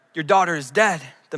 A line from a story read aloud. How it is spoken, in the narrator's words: the messenger said